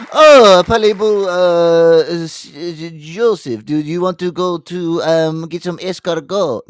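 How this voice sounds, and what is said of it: Put-on French accent. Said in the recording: “They have a French accent.”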